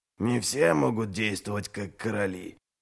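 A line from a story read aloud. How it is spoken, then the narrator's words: Ironic mutter. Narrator (Russian): более чем иронично пробормотал Ральф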